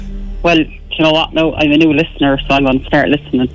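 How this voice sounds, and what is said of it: Cork Irish accent. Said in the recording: “Oh, you from Cork? ... Oh, I heard the accent straight away.”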